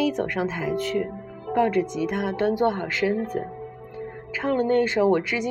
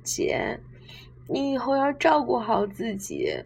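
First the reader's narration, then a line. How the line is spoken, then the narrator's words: Sobbing, choked voice. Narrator (Chinese): 安琪在一旁抽抽搭搭，哽咽着说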